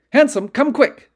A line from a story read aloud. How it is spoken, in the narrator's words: Duane yelled